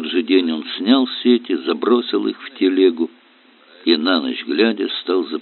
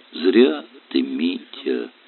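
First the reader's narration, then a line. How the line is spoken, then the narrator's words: Sad drawl. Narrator (Russian): тянул бес, печально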